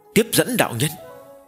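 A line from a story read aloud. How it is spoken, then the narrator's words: Deep, grave voice. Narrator (Vietnamese): Nguyên Thủy Thiên Tôn sắc mặt khẽ biến, trầm giọng nói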